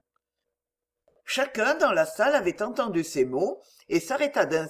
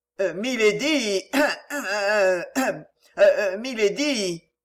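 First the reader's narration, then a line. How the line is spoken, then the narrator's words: Stammering. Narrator (French): bafouillait Jellyband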